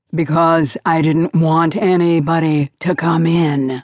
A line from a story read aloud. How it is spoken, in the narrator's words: growled